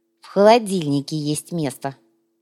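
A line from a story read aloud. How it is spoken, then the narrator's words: Girl grumbling. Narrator (Russian): пробурчала девчонка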